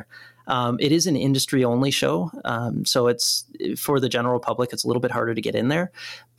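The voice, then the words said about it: Slightly congested voice from cold. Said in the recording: “I caught a cold ... the cold, which you can probably hear in my voice a little bit right now”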